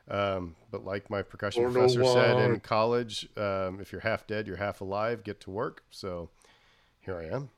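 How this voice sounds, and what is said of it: Unusually deep, low voice. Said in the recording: “I'm not trying to do my best Barry White impression. I'm a little under the weather.”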